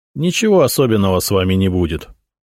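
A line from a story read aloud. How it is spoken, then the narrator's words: Dry reply. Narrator (Russian): сухо ответил Зотов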